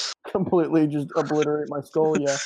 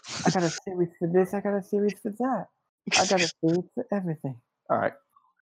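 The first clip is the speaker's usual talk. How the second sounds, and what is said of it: Lisping impression of another person. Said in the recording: “He sounds like a lift. Yeah, speech impediment. ... I'm done making fun of Mike Tyson.”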